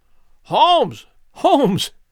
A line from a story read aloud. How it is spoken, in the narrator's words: I cried